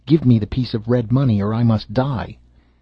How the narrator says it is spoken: the leper cried out, and said to him

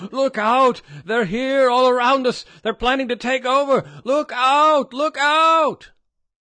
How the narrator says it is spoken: screamed hoarsely

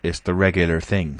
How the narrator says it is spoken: said Jaffers

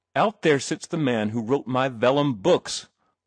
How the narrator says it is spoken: thundered Mr

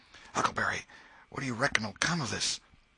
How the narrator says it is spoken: Tom whispered

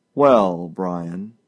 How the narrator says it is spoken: said Mr

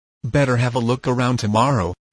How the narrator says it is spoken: replied Dave

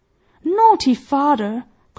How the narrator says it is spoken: cried Peony

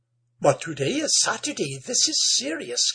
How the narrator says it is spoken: gasped Amanda

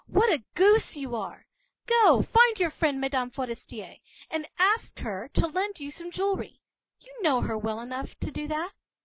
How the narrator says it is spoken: her husband cried

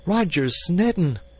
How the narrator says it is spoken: she cried with a hysteria

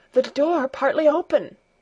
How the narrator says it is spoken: gasped John

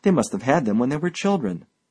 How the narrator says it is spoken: I exclaimed

